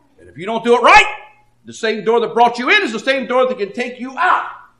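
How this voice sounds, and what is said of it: Authoritative, stern preaching voice. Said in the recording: “hear the authority in my voice? ... That don't sound right. ... preaching like that”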